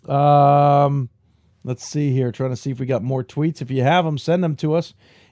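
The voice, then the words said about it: Worn-out, tired voice. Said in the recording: “my voice is a little worn out being sick last week has not helped”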